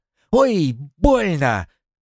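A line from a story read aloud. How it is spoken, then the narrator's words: Pained yell. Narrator (Russian): Уильям ухватил его за ухо, и Разиня заорал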